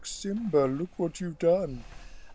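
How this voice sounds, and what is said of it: Imitates another person's voice. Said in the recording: “That was my impression of Jeremy Irons.”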